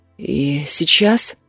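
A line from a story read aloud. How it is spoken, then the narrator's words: Hoarse, crackling voice. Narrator (Russian): Мой голос был хриплым, даже трескучим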